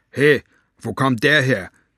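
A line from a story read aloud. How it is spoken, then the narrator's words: Growling. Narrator (German): knurrte er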